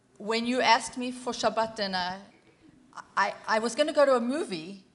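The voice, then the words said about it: Put-on French accent. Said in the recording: “in the French accent”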